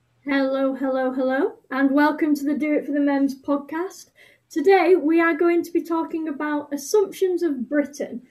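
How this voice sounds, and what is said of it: British accent. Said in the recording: “we are from Britain. I don't know if you can tell by our accents”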